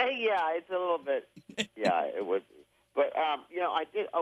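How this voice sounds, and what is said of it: Usual voice. Nothing is said of it.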